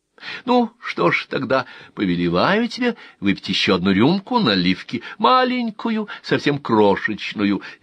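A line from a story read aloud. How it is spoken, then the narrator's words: Cheerful announcement. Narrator (Russian): весело объявила она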